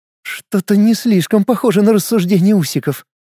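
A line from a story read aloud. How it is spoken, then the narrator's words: Giggling. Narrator (Russian): хихикнула Джейн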